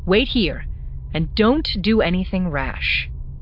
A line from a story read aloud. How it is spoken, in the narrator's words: She said firmly